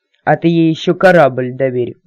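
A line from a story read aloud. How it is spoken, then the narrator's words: Gloomy. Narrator (Russian): мрачно посоветовал Люц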